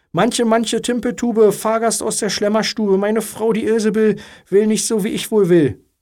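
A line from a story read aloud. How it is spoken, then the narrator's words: Called out. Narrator (German): der Mann rief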